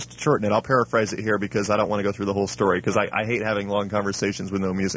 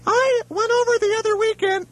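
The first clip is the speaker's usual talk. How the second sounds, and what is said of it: Poor imitation of another person's voice. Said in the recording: “doing a really bad impersonation of Stephanie's voice ... I'm doing a bad impersonation.”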